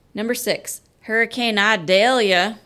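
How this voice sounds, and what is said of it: Put-on southern accent. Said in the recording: “Can't say that without a southern accent.”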